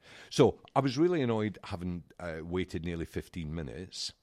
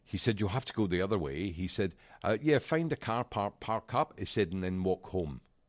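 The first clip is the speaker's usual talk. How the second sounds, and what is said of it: Put-on Australian accent. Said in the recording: “Is that your Australian accent?”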